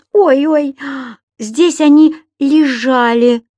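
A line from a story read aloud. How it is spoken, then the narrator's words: Moaning. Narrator (Russian): простонала хозяйка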